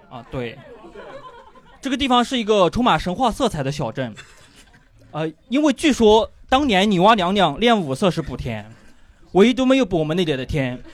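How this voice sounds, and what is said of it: Authentic Yunnan accent. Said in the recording (Chinese): “我是一个外地人，我相信大家应该听得出来了 ... 这是非常正宗的云南口音。”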